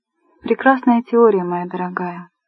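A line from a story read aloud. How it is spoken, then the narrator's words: Soft. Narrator (Russian): сказал он мягко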